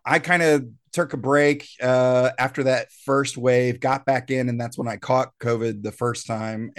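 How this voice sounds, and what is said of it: Slightly off, unwell-sounding voice. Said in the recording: “I'm on the tail end. I don't know if the listeners can tell. My voice is a little off.”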